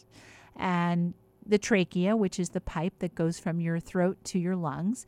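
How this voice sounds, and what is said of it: Slightly hoarse voice. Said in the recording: “I just had a little cough and my larynx became mildly inflamed from it. That's why I'm suddenly slightly hoarse.”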